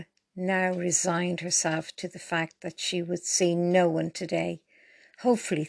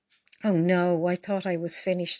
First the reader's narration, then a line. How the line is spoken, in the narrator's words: sighed Paula